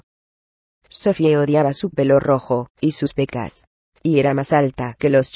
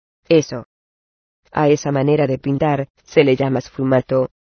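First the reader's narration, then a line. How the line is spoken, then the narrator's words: Plain. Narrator (Spanish): le dijo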